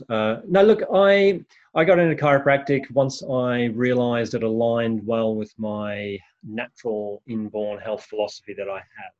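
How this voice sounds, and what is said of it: Australian accent. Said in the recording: “originally from Australia, as you could probably hear from the accent”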